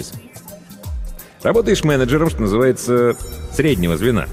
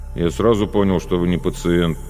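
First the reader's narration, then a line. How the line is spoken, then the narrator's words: Grumbling. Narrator (Russian): продолжал бурчать Звеняев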